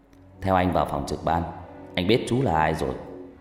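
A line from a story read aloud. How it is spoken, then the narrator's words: Smiling, smoking. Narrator (Vietnamese): Ông mỉm cười rít thuốc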